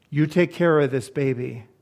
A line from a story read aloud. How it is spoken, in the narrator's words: He said in a firm, commanding voice